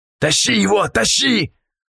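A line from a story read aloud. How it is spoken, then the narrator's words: Yelling. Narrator (Russian): орал Полос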